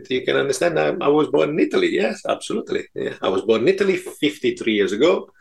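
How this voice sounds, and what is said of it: Italian accent. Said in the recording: “my suave Italian accent”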